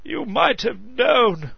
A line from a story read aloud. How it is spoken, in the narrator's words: Barrowbridge chuckled